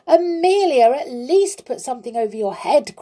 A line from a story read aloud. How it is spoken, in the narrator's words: cried the clown